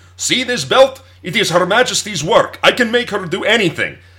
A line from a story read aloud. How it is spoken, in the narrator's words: he loudly went on and on, yelling